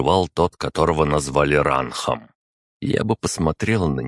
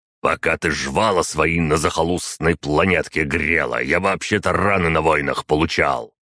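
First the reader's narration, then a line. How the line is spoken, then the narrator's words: Soldier's growl. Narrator (Russian): рыкнул на нее вояка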